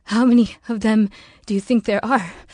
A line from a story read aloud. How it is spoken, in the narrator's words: asked nervously